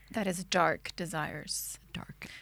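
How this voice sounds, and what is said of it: Attempted low, dark sexy voice. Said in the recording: “I was trying to say with a dark voice... Sexy voice... That was a really bad sexy that voice... such a bad sexy voice”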